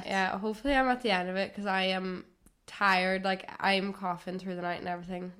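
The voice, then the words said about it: Sick, hoarse voice. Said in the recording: “Excuse my voice, I'm sick this week.”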